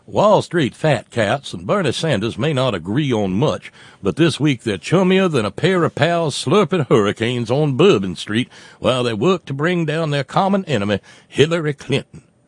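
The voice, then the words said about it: James Carville impression. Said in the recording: “the note coming from James Carville ... I'm doing wrong accent.”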